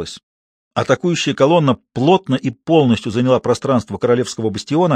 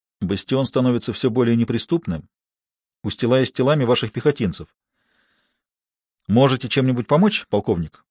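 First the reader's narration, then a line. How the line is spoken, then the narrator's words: Said quietly. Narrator (Russian): Луи негромко произнес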